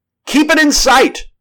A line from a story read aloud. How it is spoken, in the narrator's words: cried the doctor